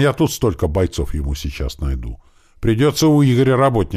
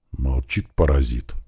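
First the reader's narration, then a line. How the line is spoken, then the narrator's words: Grumbled. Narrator (Russian): буркнул Туман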